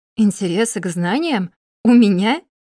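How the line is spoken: Bursting into laughter. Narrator (Russian): Не выдержала и расхохоталась

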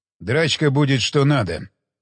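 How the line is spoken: Calm. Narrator (Russian): спокойно сказал Уилсон

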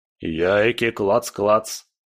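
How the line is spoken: Deep booming bass. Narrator (Russian): пробасил железяка

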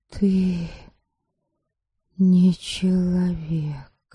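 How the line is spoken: Half-assertive whisper. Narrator (Russian): полуутвердительно прошептала Ересава

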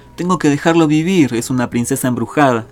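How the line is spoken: Plain. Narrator (Spanish): dijo Willy

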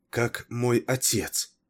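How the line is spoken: Barely audible question. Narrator (Russian): еле слышно спросила она

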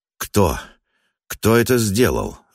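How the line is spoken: Breathless exhale. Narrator (Russian): выдохнул он

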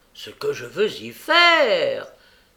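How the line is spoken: Exasperated exclamation. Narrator (French): s'écria le juif, exaspéré de l'obstination inattendue de son interlocutrice et des désagréments de la soirée

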